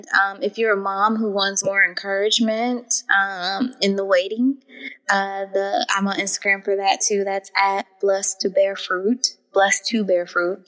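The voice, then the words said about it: Regional accent showing through. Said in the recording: “Sorry, I know my accent's coming out there.”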